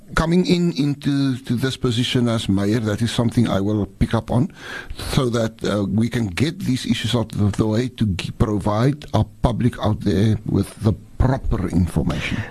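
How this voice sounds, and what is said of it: Afrikaans accent, strongly pronounced R's. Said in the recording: “you like really pronounce all your R's. You say our, where, ... It's like that Afrikaans like accent.”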